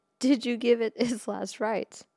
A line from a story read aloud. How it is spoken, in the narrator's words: A desk sergeant laughed and said